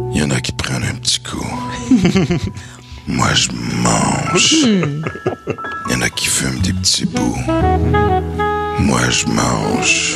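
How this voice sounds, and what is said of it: Deep, sultry exaggerated voice. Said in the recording (French): “sa grosse voix la plus sensuelle ... avec ma grosse voix”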